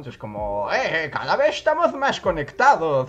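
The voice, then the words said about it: Put-on Spanish accent. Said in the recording (Spanish): “por alguna razón me sale como con acento español”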